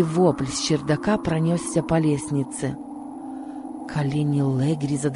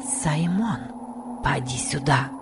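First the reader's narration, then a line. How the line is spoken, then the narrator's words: Whisper. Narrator (Russian): прошептала Касси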